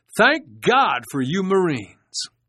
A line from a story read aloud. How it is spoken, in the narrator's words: one of the crewmen, thankful he had been spared a crash landing in the Pacific, shouted